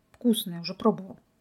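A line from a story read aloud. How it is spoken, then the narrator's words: Gruff mutter. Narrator (Russian): буркнул Михаил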